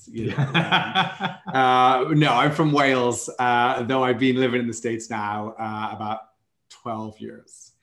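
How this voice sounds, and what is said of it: Welsh accent. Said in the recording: “How does the Welsh accent go down in the down the States?”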